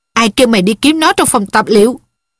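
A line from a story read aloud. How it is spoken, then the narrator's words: Angry shout. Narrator (Vietnamese): tay dược sĩ quát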